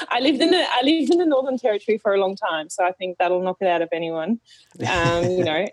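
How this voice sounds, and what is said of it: German accent with Australian pronunciation. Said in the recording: “I originally come from Germany ... Therefore the accent ... helped me a lot with the Aussie pronunciation”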